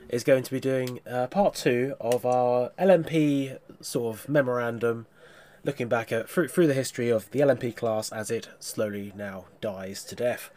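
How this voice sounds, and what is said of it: Congested voice from a cold. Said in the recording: “I've got a cold”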